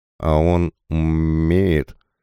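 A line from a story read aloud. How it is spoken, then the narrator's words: Drawl. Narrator (Russian): протянул Кузьма Кузьмич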